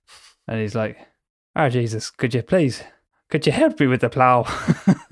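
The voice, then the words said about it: Put-on Irish accent. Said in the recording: “That accent's okay because obviously Rich is Irish ... apologies to everybody for that accent ... Apologies to my own ancestors for that particular accent.”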